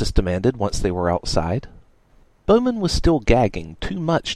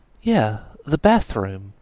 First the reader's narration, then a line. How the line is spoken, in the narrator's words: Lanta said